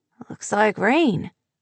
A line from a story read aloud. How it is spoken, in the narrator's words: Devin mumbled